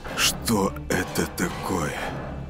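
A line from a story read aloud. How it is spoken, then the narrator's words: Muffled disbelieving mutter. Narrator (Russian): глухо пробормотал Матиас, не веря глазам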